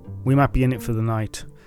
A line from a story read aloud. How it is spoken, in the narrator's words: said Pilkington